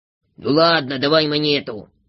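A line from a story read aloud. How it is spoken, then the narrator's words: Grumbling. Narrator (Russian): проворчал Дригль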